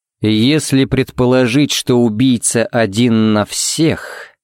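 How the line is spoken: Thoughtful drawl. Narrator (Russian): протянул Харри задумчиво

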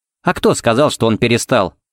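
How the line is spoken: Snorting. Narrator (Russian): фыркнула Пепси

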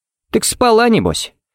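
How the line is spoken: Chummy snort. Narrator (Russian): фыркнул Харри, будто они с Эйденом были лучшими приятелями и обсуждали девчонок за кружкой пива

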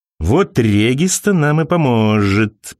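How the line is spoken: Sinister drawl. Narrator (Russian): протянул он зловеще

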